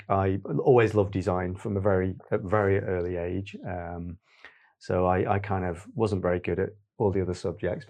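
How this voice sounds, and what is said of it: Stoke-on-Trent English accent. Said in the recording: “as you can tell by probably partially my accent, I'm originally from Stoke-on-Trent, not Manchester”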